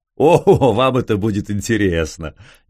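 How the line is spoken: Laughing. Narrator (Russian): Непонятно чему засмеялся князь

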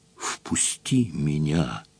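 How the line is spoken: Whispered. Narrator (Russian): прошептал голос

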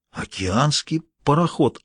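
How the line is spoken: Stunned mutter. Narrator (Russian): ошарашенно пробормотал доктор Холл

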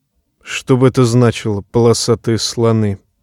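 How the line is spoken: Muttering. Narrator (Russian): бормотал гриф

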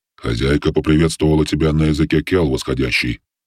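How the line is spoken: Gloomy voice. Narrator (Russian): мрачно сообщил голос

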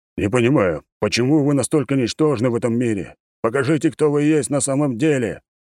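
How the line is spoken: Deep bass growl. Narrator (Russian): Один из голосов был басовит, и слова эти он скорее прорычал, чем проговорил

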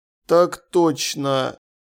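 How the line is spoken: Wooden voice. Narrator (Russian): Деревянным голосом откликнулся Ваймс

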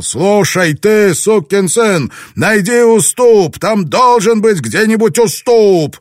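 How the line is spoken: Shout. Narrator (Russian): Блэкторн кричал

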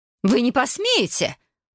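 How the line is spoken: Shriek. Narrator (Russian): взвизгнула леди Флоренс

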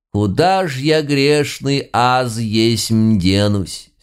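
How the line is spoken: Drawling with feeling. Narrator (Russian): С чувством протянул Филимон Митрофанович

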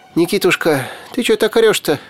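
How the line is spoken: Frightened. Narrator (Russian): Испуганно

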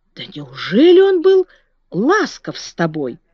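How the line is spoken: Exclaimed. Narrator (Russian): воскликнула Марта

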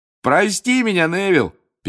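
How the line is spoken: Shout over laughter. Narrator (Russian): перекрывая всеобщий хохот, крикнул Фред

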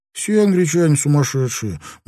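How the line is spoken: Gruff grumble. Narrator (Russian): буркнул Сонг

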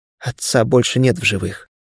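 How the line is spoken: Unexpectedly quiet. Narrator (Russian): неожиданно тихо произнесла Лиция

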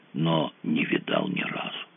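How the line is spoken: Dazed voice. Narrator (Russian): сказал очумелым голосом Фредди

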